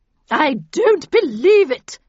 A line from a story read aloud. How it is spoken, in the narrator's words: she bellowed